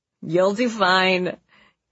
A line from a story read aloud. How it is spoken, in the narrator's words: he told me, laughing